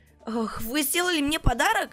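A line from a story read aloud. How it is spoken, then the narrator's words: Excited question. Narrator (Russian): взволнованно спросила Скуталу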